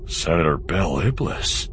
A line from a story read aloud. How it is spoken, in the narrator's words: he breathed